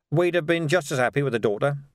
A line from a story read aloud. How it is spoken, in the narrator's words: said Vimes quickly